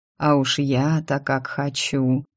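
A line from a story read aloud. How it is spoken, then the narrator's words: Muttered. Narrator (Russian): пробормотал он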